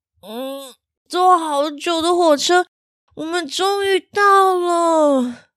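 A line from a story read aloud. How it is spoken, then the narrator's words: Sleepy. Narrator (Chinese): 小希睡眼惺忪的说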